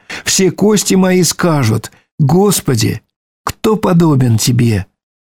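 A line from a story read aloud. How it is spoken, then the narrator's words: Joyful exclamation. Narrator (Russian): радостно восклицая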